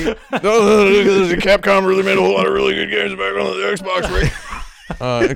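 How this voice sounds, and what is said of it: Cartoon character voice impression. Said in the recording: “That's my Rick and Morty impression.”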